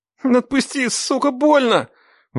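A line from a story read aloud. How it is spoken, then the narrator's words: Pained howl. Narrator (Russian): взвыл Дима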